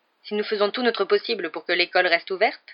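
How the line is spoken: Stern reply. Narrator (French): répliqua le professeur McGonagall d'un ton sévère

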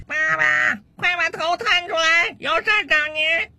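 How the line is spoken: Son's loud shout from downstairs. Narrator (Chinese): 楼下又传来他儿子的大声喊叫声

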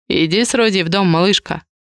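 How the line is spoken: Quiet command. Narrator (Russian): негромко распорядился Адриан

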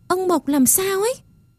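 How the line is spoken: Crying out. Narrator (Vietnamese): Tôi kêu lên

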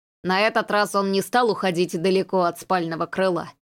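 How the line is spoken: Snort. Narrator (Russian): хмыкнул Дес

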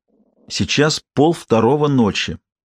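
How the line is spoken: Irritated, slurred woman's voice. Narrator (Russian): раздраженно, заплетающимся языком ответила она

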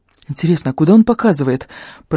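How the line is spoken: Muttering. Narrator (Russian): пробормотал Фари

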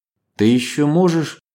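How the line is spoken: Uncertain, cut off. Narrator (Russian): неуверенно начала Ева, но Иван оборвал ее

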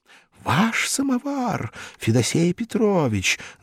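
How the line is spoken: Admiring crowd whisper. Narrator (Russian): зашептала восхищенная публика

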